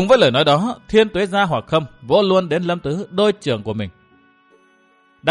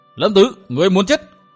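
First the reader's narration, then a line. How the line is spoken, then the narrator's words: Furious roar, old man. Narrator (Vietnamese): sắc diện của Thiên Tuế gia Hoặc Khâm đỏ gấc, lão gầm lên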